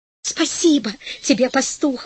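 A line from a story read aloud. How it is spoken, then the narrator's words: Woman exclaiming. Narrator (Russian): воскликнула женщина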